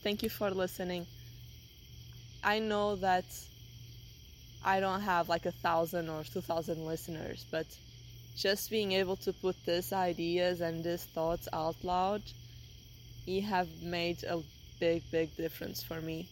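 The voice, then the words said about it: Heavy non-native English accent. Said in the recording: “I need to work on my English. I really have a heavy accent.”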